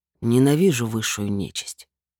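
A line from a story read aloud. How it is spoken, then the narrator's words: Calm reply. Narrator (Russian): спокойно ответил лорд Девиаль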